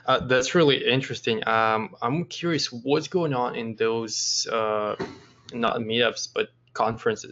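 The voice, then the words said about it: Hoarse, strained voice. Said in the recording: “sorry for losing my voice.”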